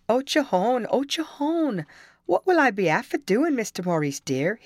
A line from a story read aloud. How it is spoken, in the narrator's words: exclaimed